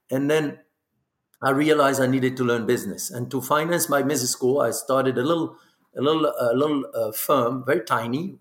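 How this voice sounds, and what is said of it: Non-native accented English. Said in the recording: “That's why I have this accent”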